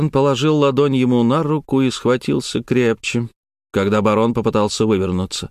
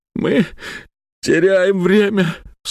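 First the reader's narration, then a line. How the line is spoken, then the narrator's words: Sobbed. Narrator (Russian): всхлипнул Фурсов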